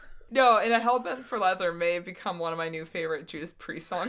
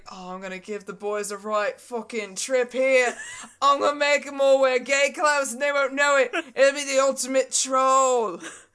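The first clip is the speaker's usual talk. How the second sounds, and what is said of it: Put-on British accent. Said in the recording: “Your British accent is always, thing. But it's always John Lennon.”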